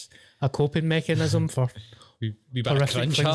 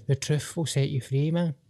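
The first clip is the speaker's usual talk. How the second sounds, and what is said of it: Silly put-on voice. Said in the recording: “in a stupid voice”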